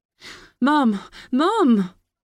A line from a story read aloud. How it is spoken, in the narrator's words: cried Kira